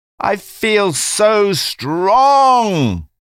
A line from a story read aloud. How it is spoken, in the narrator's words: she exclaimed over and over again